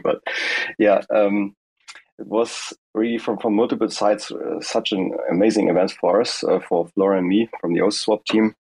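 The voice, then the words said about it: Hoarse voice. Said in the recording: “Sorry for my hoarse voice still. ... still not really able to speak.”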